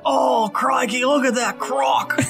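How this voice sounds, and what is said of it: Poor Steve Irwin impression. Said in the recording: “my absolute worst impersonation of Steve Irwin”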